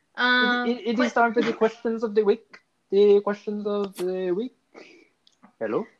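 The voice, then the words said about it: Put-on foreign accent. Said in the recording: “Do the Spanish accent. ... You sound Thai.”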